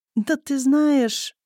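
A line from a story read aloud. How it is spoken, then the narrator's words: Hesitant beginning. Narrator (Russian): неуверенно начинает Азамат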